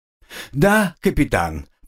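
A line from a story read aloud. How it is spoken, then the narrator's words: Answered after calming sighs. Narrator (Russian): пару раз вздохнув, чтобы успокоиться, ответил я Раваху-аге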